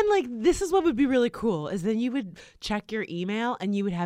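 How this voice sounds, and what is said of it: Usual voice. Nothing is said of it.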